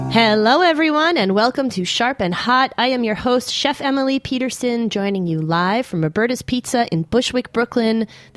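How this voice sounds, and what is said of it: Voice affected by a cold. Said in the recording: “as you can hear in my voice, I'm still getting over my cold”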